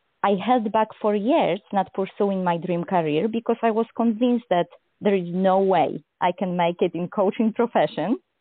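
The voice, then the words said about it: Heavy foreign accent. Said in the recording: “one of the things that I felt very insecure about ... was my accent ... having such a heavy accent”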